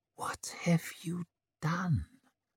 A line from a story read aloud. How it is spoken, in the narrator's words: She whispered